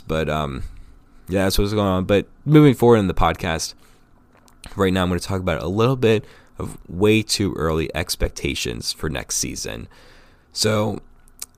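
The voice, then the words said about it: Raspy voice from a cold. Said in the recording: “I come down with this cold over the weekend ... if my voice gets a little bit raspy, a little bit different than you've heard it in the past”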